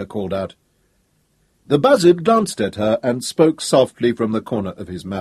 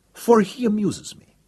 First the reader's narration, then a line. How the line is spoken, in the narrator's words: warned sweetly